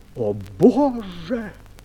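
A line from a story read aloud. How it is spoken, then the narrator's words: Exclaiming. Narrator (Russian): воскликнул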